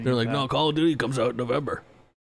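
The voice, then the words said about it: Imitates another person's voice. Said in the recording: “Colleen's friends that I'm imitating.”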